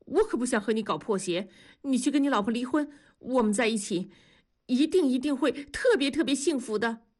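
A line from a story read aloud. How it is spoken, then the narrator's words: Breathless. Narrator (Chinese): 方鸿斌气喘吁吁地说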